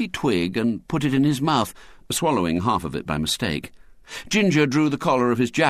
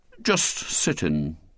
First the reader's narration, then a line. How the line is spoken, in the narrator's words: said William coldly